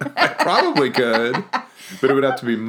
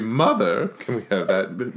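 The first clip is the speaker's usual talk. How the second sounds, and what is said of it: Put-on British accent. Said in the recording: “In a British accent?”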